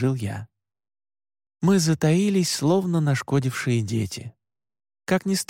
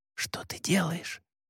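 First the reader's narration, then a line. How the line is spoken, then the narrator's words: Hissed. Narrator (Russian): прошипела Мари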